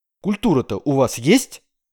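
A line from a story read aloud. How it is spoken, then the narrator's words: Sharp question. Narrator (Russian): резко спросил он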